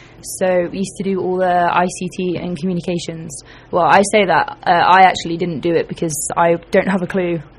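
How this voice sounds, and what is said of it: British accent. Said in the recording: “people have picked up on your accent ... I'm from Britain”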